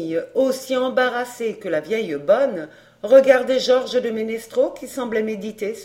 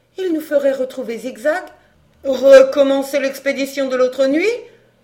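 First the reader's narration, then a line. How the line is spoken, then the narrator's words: Exclaimed. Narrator (French): s'écria Brigitte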